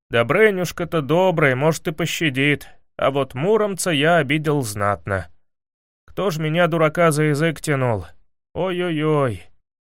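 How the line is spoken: Sadly spoken. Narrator (Russian): печально промолвил

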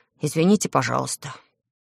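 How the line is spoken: Quiet. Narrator (Russian): тихо сказал

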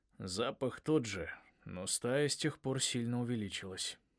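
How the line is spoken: Gloomy. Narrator (Russian): мрачно сказал отец

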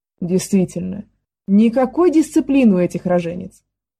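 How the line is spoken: Scoffing snort. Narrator (Russian): Хмыкнул Бластард

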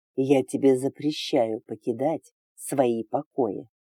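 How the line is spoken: Hissing. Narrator (Russian): прошипел

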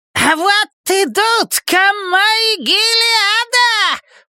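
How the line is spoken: Agitated nervous shout. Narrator (Russian): прокричал взволнованный нервный голос

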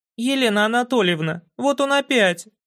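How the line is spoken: Shrieked. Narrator (Russian): взвизгнула Красухина

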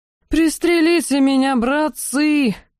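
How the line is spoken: Howling. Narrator (Russian): взвыл остряк

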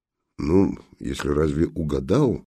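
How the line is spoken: Distrustful grumble. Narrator (Russian): недоверчиво буркнул жандарм

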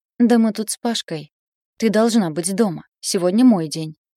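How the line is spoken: Sharp interruption. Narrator (Russian): прервала она резко

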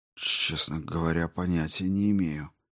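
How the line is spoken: Whispering to himself. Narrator (Russian): прошептал он больше себе, чем жене

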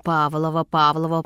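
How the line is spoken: Old woman mumbling. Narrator (Russian): пробормотала бабушка моего мужа

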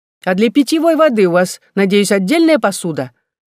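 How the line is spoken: Shouted after someone. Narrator (Russian): Я прокричала ему в спину

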